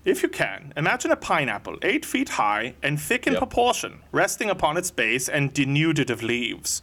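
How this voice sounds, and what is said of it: Put-on Bavarian accent. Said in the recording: “I'm going to try to do it in his Bavarian accent.”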